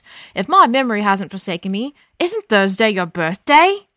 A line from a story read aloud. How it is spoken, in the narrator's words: Stamford shouted